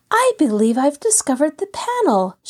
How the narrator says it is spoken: she cried eagerly

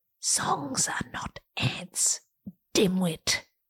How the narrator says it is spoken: rational Janine leans in to whisper

